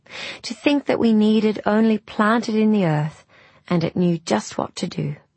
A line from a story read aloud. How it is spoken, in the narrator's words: said Rose wistfully